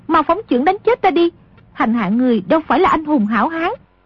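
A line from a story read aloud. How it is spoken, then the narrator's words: Terrified woman crying out. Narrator (Vietnamese): Nữ lang càng hoảng sợ kêu lên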